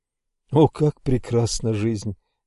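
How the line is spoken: Quiet, repeated. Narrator (Russian): тихо повторил я несколько раз

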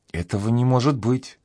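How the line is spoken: Whispered. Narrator (Russian): прошептала она

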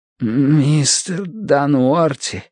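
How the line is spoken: Hoarse wheeze. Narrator (Russian): прохрипел Бадри

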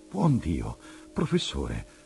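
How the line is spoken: Startled exclamation. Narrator (Italian): ho esclamato balzando in piedi

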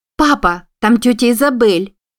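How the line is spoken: Exclaiming from behind. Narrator (Russian): воскликнула за его спиной

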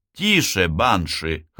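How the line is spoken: Laughing. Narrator (Russian): хохотнул Лазло

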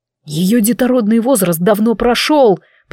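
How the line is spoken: Growled reply. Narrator (Russian): прорычал Кайвин в ответ

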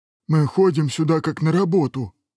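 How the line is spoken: Sad joking dragon head. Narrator (Russian): грустно пошутила одна из голов дракона

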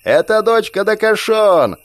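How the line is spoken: Yelling female leader. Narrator (Russian): заорала предводительница

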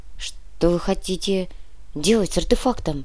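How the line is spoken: Quiet question. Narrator (Russian): тихо спросил Зябликов

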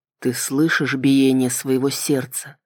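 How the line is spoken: Quiet low voice. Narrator (Russian): спросил он тихим, низким голосом

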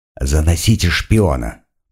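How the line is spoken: Quiet voice. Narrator (Russian): прозвучал негромкий голос

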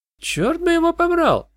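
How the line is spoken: Exclamation. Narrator (Russian): воскликнула Кэти

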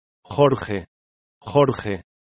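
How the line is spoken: Dying, faint voice. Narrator (Spanish): Iclea, que murió repitiendo con voz apagada

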